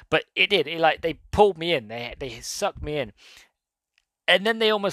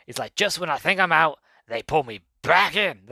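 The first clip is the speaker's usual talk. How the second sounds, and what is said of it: Imitates another person's voice. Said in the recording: “That was my terrible impression of Al Pacino”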